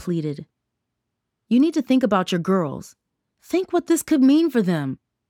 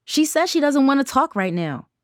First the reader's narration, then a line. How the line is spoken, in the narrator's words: Jamie snapped